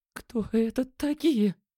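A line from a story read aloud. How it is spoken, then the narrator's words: Trembling voice. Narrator (Russian): дрожащим голосом спросила Лена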